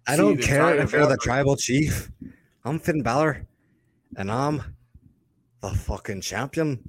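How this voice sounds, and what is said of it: Put-on Irish accent. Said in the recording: “doing an accent ... That's his with the Irish accent.”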